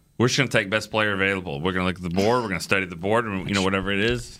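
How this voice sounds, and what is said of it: Imitates another person's voice. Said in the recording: “my Stephen Jones impression”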